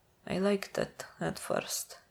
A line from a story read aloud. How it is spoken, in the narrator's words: Ilya murmurs, as if being cuffed had put him half to sleep